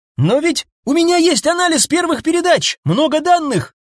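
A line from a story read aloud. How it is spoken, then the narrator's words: Sudden shout. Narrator (Russian): крикнул вдруг связист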